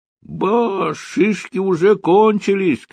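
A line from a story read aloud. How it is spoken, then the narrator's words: Shout. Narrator (Russian): крикнул он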